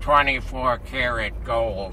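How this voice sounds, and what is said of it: Impression of Larry Flynt. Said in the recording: “That's a really good impression ... I didn't tart it up too much? That's because I remember exactly what his voice sounded like ... you are a natural mimic ... it was Larry Flint”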